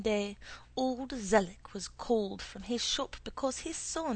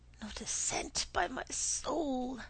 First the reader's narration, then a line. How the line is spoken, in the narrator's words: he would gasp